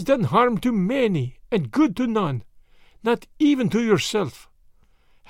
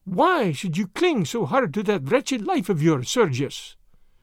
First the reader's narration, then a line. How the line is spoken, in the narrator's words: said she